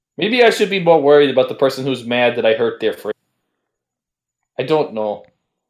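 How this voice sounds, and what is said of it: Put-on Canadian accent. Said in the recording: “Your accent's turning Canadian.”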